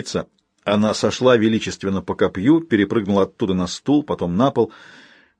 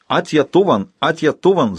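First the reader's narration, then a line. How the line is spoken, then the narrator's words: Screaming. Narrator (Russian): закричала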